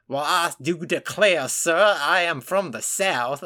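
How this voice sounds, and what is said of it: Exaggerated fake Southern accent. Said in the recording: “another bad accent was Charlie Heaton playing Sam Guthrie ... who's supposed to have, like, this Kentucky accent, ... he just sounds like ... this awful... ... the horrible accents”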